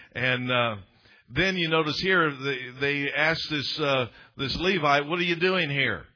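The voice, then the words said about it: Southern US accent. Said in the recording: “Southern Manitoba... Tennessee... South, Southern accent”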